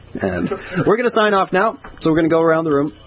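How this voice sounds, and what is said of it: Radio announcer voice. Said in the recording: “here's my radio voice.”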